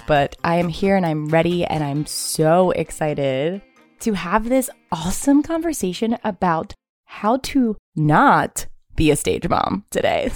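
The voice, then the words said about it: Raspy voice from a cold. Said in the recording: “I sound a little raspy today. I have a cold.”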